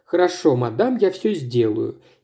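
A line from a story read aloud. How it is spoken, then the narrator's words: Quiet. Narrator (Russian): и добавил тихо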